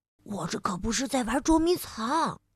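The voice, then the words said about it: Quiet, hushed whisper. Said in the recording (Chinese): “小熊赶紧小声地说”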